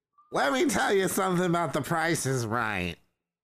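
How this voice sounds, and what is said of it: Imitates another person's voice. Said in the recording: “my Andy Rooney impersonation. It's very Andy Dick. ... Bordering on some Paul Lynde.”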